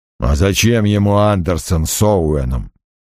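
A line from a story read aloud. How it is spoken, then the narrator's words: Grumbling mutter. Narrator (Russian): пробурчал Крэмер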